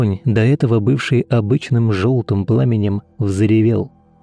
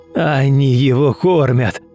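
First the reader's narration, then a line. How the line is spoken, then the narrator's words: Growled. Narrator (Russian): прорычал Ефим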